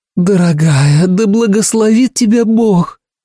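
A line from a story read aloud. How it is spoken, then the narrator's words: Breathy exhale. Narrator (Russian): выдохнула Урсула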